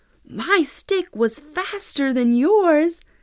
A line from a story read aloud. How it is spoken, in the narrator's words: shouted Jack